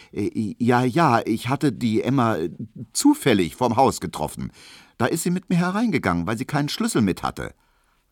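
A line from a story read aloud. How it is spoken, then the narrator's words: Hesitant. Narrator (German): sagte Emil Kubinke zögernd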